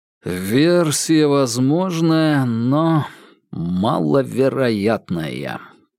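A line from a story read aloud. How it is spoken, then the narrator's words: Drawling. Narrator (Russian): протянул Вербин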